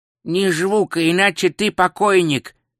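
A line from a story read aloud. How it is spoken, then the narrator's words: Nasal voice close to ear. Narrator (Russian): произнес у него над ухом гнусавый голос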